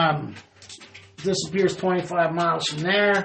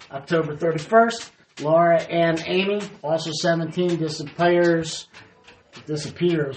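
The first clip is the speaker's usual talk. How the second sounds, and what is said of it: Southern Kentucky-style drawl. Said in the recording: “Kentucky or something accent... your southern draw came out”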